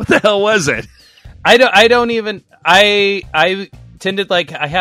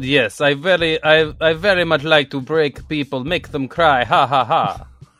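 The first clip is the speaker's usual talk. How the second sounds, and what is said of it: Vague, shifting Eastern European accent. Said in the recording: “one bad Russian accent ... And it's not even Russian ... this vaguely Eastern European um, accent that just kind of fluctuates all around, like Eastern Europe, Russia area ... traveling accent”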